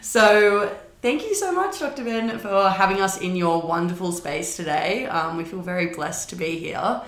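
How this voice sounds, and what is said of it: Strong Australian accent. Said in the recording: “Thanks for delighting us with your accents... They are extremely strong... They're perfectly Aussie. They're perfect.”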